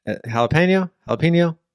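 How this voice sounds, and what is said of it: Put-on southern twang. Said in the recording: “I got my southern twang on.”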